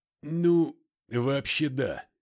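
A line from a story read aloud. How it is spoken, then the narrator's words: Strained, catching breath. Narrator (Russian): выдавил он, продышавшись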